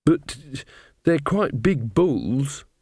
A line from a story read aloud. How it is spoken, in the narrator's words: said Magrat nervously